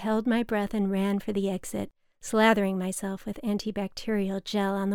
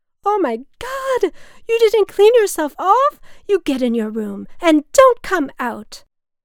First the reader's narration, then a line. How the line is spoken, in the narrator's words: his nurse screeched